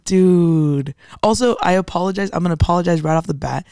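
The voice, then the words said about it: Raspy, deeper than usual voice. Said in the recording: “For sounding like Emma Chamberlain. ... The raspy voice. ... My voice is a little deeper. It's already a little deeper to begin with”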